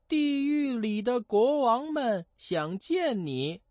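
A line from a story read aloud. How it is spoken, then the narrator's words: Boy servants calling. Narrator (Chinese): 两个小男仆人 叫道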